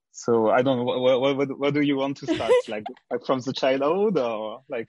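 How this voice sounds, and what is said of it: French accent. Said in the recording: “I'm from France. I think you can hear it with my accent.”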